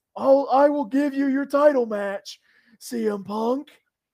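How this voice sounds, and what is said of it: Imitates another person's voice. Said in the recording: “I'm actually pretty good at doing a John Laurinaitis impression”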